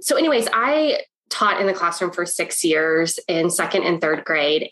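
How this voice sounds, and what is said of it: Congested, sick-sounding voice. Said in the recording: “I have been sick for the past week. And so I'm all, you have the nose and the, so I'm sorry that my voice sounds like”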